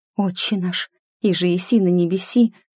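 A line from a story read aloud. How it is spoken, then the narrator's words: Hoarse sobbing prayer. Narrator (Russian): Всхлипывая, я начала сипло читать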